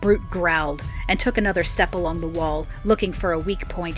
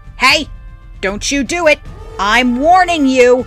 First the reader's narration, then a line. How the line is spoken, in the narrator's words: my shriek of protest